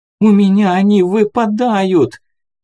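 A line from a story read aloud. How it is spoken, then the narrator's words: Shouted. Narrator (Russian): крикнула Саша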